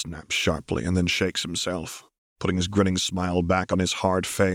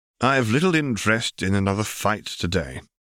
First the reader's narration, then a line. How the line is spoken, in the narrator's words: he sighs